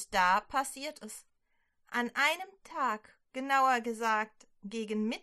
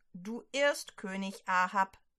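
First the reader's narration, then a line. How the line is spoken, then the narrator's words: Plain. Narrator (German): sagt Elia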